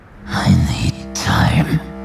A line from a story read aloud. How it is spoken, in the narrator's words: he muttered